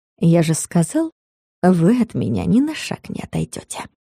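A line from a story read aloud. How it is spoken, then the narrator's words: Soft purr. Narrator (Russian): тихо мурлыкнул Костин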